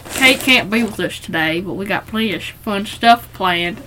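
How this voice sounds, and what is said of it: Put-on character accent. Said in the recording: “I know I get this accent every time I'm Richard ... My accent? ... You just turned into a different human.”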